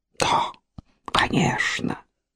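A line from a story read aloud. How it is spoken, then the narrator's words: Whispering. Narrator (Russian): шептала она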